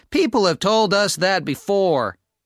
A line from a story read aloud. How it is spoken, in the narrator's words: laughed Hal